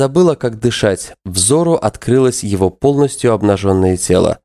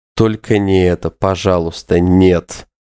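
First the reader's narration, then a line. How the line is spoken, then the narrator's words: Desperate muffled moan. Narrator (Russian): Она отчаянно застонала, уткнувшись лицом ему в грудь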